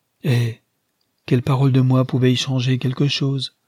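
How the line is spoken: Saddened asking tone. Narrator (French): demanda-t-il d'un ton attristé

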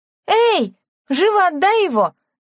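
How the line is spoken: Shouting while laughing loudly. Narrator (Russian): закричала она, хохоча во весь голос

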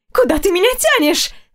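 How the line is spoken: Girl's shriek. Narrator (Russian): взвизгнула девушка

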